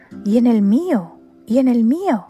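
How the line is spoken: Many crows shouting together. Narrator (Spanish): gritaban todos los cuervos a un tiempo, en medio de un agitado batir de alas

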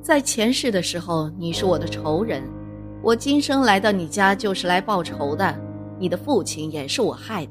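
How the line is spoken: Laughing. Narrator (Chinese): 王福此时笑了一声

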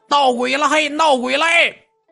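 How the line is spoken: Loud shout. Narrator (Chinese): 跟那大喊

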